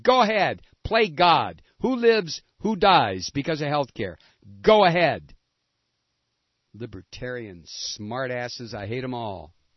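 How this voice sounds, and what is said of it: Angry screaming. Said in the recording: “I'm screaming at you”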